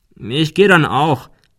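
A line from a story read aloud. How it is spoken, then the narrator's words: Called out in farewell. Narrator (German): rief er zum Abschied in das Büro hinein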